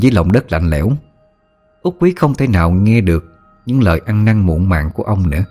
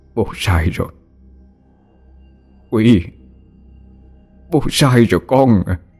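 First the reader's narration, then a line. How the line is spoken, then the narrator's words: Choked with emotion. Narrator (Vietnamese): Ông nghẹn ngào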